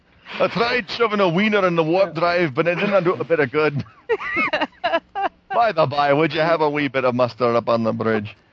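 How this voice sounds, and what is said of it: Cheesy exaggerated Scottish accent. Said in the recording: “talk in a really cheesy ass crap Scottish accent.”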